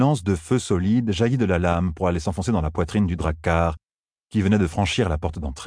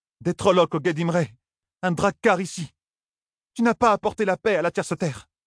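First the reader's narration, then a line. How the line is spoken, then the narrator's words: Screaming in terror. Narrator (French): Criant de terreur, Avienda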